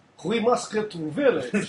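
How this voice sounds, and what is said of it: Put-on Russian accent. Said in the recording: “That is Russian. She is Russian. Yeah. Different accent.”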